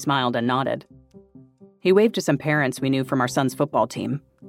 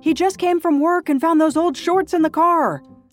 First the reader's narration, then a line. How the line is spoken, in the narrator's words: I shouted